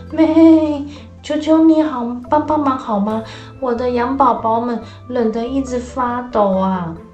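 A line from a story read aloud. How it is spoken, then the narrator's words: Pleading mother sheep. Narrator (Chinese): 羊妈妈就哀求地说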